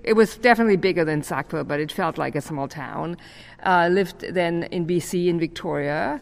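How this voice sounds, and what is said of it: German accent. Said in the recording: “I actually grew up in Germany, so many of you still hear my accent.”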